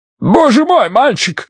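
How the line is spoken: Yelling. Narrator (Russian): заорал Бидвелл

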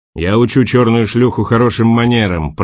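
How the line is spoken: Roared. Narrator (Russian): проревел Борис

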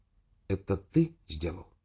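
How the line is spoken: Quiet question. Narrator (Russian): спросил тихо

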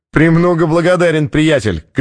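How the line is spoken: Shouted after someone. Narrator (Russian): крикнул тот ему вслед

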